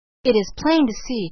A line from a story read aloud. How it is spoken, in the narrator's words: cried Edith Carr